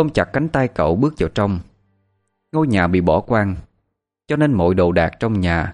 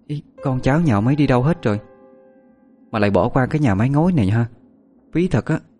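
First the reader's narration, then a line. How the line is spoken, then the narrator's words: Trembling voice. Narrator (Vietnamese): run run nói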